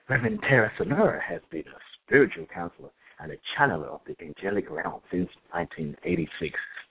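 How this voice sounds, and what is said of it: Announcer-style radio voice. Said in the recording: “I'm going to get my radio voice.”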